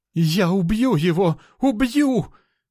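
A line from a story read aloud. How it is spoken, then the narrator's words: Howling elf. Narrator (Russian): взвыл эльф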